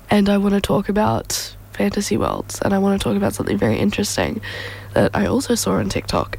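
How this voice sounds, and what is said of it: Strained voice, starting to go. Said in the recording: “I'm pretty sure I'm on my way to losing my voice now that I speak for more than 5 seconds”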